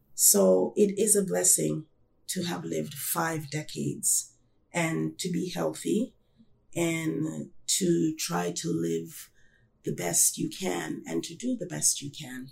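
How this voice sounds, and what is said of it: Slightly hoarse voice. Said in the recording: “my voice, my allergies is acting up a little bit ... my voice might sound a little bit hoarse”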